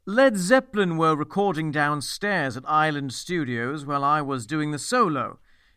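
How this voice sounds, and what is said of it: Imitates another person's accent. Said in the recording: “my Martin Barr accent”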